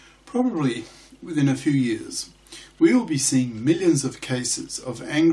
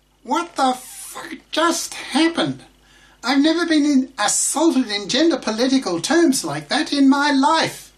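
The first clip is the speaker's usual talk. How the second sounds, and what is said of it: High-pitched voice imitating a woman. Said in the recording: “now I'll switch to high voice because I'm pretending to be a female”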